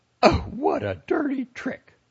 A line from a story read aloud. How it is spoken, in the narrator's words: the lady cried out, her cheeks turning red